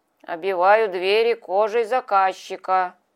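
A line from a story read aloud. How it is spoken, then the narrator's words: Good-natured mumbling. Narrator (Russian): бубнил кто-то рядом добродушным голосом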